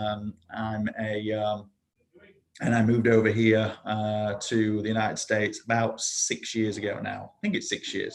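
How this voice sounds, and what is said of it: British accent. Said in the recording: “You can probably already tell by the accent that although I'm live in Florida now, I am not exactly your average Florida native. So I was born and raised in the UK.”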